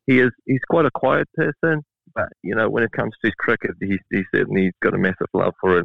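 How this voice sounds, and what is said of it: Slight South African accent. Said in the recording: “am I detecting a slight accent? ... I was born in South Africa ... we moved to New Zealand ... sort of trying to be a Kiwi now”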